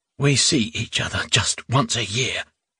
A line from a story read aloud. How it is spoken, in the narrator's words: he croaked